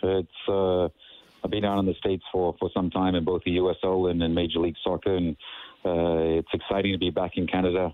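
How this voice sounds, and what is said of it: Mixed South African accent. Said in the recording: “I have a bit of an accent, a funky one, I guess ... your accent ... You were born and raised in South Africa”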